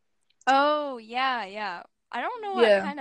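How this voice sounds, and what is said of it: Usual voice. Nothing is said of it.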